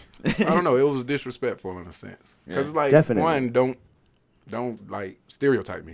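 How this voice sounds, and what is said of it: Southern US accent. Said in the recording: “I'm from the South. Actually, listen to my accent”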